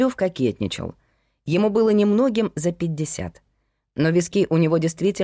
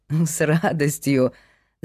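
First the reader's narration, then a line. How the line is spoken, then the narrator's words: Laughing. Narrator (Russian): засмеялся Павел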